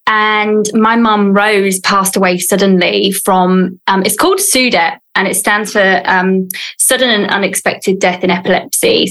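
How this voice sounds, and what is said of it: British English accent. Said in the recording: “I am originally from the UK, as you can probably hear by the accent”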